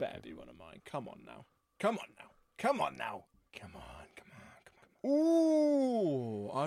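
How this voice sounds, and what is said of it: Usual voice. Nothing is said of it.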